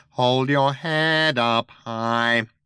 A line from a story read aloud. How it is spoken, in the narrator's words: it whined nasally